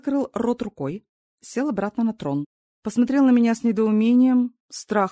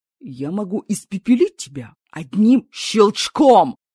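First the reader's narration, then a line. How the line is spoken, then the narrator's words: Roar. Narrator (Russian): взревел Мраконар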